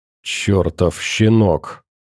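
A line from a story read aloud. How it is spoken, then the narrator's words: Hissed in annoyance. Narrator (Russian): прошипел Шухов с досадой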